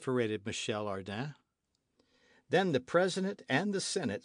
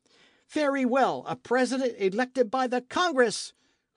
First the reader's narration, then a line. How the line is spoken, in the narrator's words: cried Michel